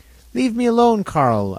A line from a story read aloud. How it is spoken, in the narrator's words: I exclaimed at length with tears in my eyes